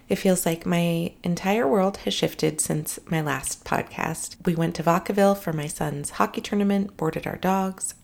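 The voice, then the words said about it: Tired, exhausted-sounding voice. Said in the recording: “If I sound exhausted, it's because I am.”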